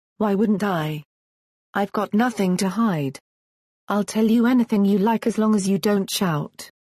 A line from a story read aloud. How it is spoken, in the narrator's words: Lara replied